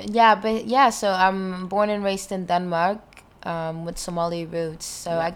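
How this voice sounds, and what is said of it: Mixed, hard-to-place accent. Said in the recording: “this weird amalgamation accent you've got ... The accent, I have no idea where that came from ... picked up the accents”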